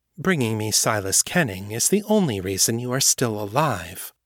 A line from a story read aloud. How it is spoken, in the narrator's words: the White Widow said, her voice deceptively calm